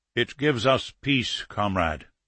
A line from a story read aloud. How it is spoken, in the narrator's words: Bromkovsky said quietly